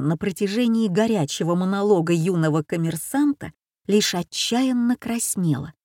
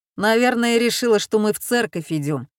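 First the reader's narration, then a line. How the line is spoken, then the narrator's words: Father chuckling. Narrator (Russian): хохотнул отец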